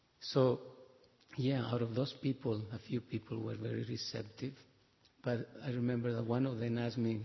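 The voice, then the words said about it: Spanish Mexican accented English. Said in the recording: “he detect my accent, you're Spanish, you sound like Mexican”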